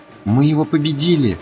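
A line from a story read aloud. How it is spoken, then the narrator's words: Joyful. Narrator (Russian): радостно сказала Пинки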